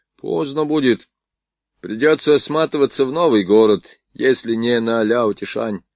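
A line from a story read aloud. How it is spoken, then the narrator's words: Gloomy muttering. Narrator (Russian): мрачно бурчал Стемковский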